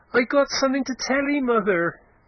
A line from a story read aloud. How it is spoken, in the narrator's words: he cried in a shrill tone